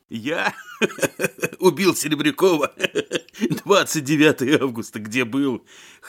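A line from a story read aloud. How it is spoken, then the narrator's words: Hoarse laughter. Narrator (Russian): хрипло смеялся Коваленко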